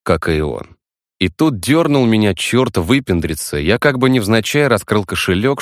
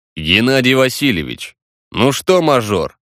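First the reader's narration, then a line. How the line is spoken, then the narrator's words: Amused snort. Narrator (Russian): Он хмыкнул в усы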